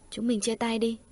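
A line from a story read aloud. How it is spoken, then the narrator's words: Hesitant, restrained. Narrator (Vietnamese): Cảnh Gia Tuệ khẽ cắn môi nói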